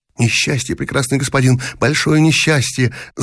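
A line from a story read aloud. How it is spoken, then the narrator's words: Woman mumbling. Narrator (Russian): забормотала цыганка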